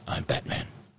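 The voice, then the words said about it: Batman voice impression. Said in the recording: “You have to do the voice.”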